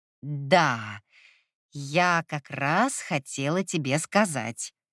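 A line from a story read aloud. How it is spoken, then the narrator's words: Awkward drawl. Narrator (Russian): неловко протянула Сирша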